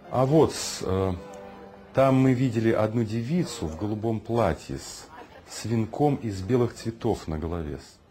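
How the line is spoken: Plain. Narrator (Russian): сказал Егор Яковлевич

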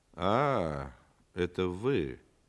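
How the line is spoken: Disappointed drawl. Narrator (Russian): разочарованно протянул антрепренер

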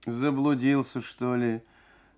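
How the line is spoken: Sleepy soft singsong. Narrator (Russian): Сонно и мягко пропела она

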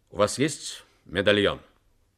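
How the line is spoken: Stern question. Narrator (Russian): Джек Харди строго спросил

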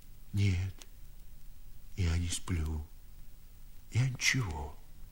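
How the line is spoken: Timid old man coughing. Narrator (Russian): сказал старик и робко покашлял

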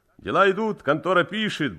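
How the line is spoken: Cheerful reply. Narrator (Russian): бодро откликнулся Цимбал

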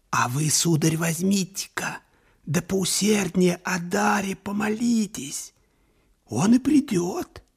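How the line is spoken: Whispered interjection. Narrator (Russian): вмешался шепотом карлик

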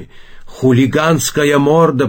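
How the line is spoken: Shouting. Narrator (Russian): прокричал он

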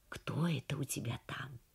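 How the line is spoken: Whispered question. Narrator (Russian): Тха ... спросил шепотом

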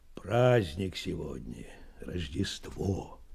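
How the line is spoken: Quiet reply. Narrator (Russian): тихо ответил Меркулов

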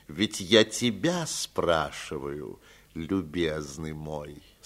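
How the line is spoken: Calm continuing. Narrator (Russian): спокойно продолжал Аркадий Павлович

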